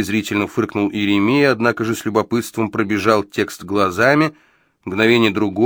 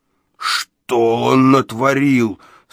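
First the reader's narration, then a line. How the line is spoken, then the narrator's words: Moaning. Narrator (Russian): стонал Иеремия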